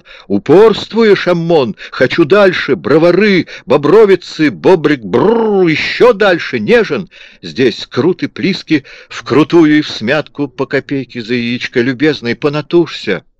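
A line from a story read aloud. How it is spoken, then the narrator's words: Desperate roar. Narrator (Russian): Наум в отчаянии проревел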